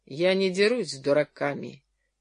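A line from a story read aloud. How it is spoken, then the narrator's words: Dry reply. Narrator (Russian): ответил Джерри сухо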